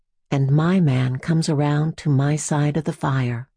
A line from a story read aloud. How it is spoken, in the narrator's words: says